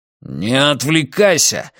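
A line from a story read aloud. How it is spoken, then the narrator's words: Growling. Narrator (Russian): рыкнул Матиас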